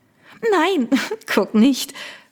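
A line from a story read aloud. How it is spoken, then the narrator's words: Giggling. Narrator (German): Victoria kicherte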